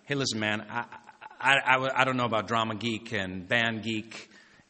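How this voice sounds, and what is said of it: Vague Texas accent impression. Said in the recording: “that's my kind of vaguely Texas accent.”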